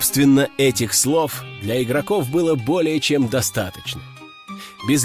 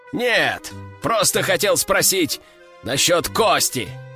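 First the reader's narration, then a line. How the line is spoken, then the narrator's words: Exclaimed. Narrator (Russian): Воскликнул капитан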